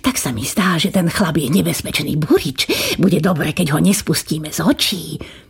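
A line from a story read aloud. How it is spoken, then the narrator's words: Whispered into ear. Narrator (Slovak): pošepkal kniežaťu do ucha kastelán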